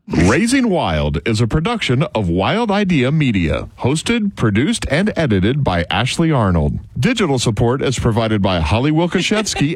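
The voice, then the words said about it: Radio announcer voice. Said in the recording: “turning on his radio voice”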